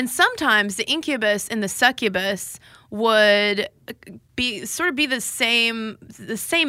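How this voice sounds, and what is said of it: Usual voice. Nothing is said of it.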